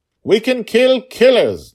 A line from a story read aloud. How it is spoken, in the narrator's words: Dragonfather shouted